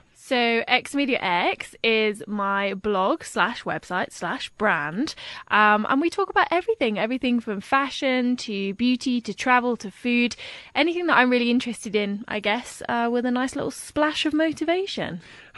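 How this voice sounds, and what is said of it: Classy-sounding accent. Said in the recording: “classy with that accent ... you love my accent ... I do love your accent.”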